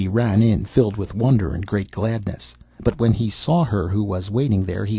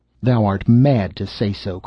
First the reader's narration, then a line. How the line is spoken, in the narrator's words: cried the Star Child angrily